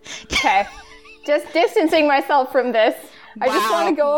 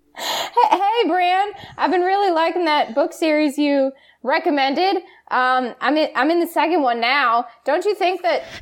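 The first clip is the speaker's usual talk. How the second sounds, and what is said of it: Put-on Southern accent. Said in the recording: “Oh, this isn't my accent. Fuck. Southern. ... Southern.”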